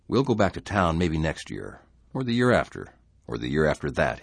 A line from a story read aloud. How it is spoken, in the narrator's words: he said calmly